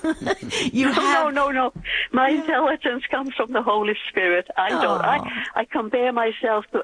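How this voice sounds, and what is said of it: Blended Finnish American accent. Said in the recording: “You have the most beautiful accent ... I was born in Finland ... Brought up in Massachusetts. My yeah. accent is in the middle of the Atlantic Ocean ... it's quite beautiful”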